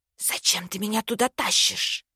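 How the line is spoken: Witch hissing. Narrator (Russian): зашипела ведьма

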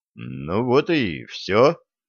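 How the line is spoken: Young man muttering. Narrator (Russian): пробормотал юноша

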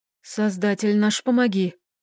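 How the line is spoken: Whispered prayer. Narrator (Russian): прошептал лекарь

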